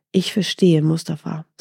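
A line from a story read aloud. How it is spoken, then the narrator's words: Plain. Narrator (German): sagte Mustafa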